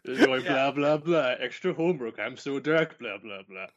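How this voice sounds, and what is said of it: Imitates another person's voice. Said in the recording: “Doing an impression of him. ... That's perfect, man. That's totally him.”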